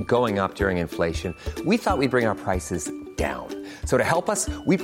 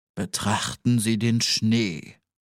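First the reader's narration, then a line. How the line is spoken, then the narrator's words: Deep, strangely vibrating voice. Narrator (German): sagte mit tiefer Stimme, die sonderbar vibrierte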